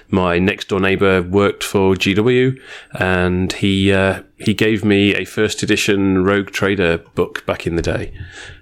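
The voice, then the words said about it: British accent. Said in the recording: “as you can tell from my accent, I am not a local ... I came from the UK originally”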